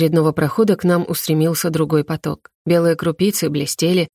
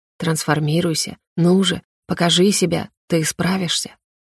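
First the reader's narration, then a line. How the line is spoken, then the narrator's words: Eerie magical whisper. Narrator (Russian): дикая магия будто нашептывала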